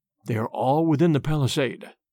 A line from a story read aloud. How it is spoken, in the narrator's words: he whispered